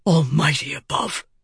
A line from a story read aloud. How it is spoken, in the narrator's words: Dalinar whispered